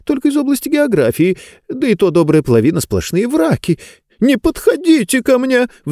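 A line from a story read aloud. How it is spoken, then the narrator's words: Shriek. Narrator (Russian): взвизгнула она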